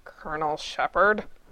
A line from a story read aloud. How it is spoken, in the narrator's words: Gibbs snarled